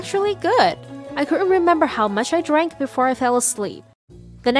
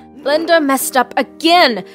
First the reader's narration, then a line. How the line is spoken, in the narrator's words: I yelled angrily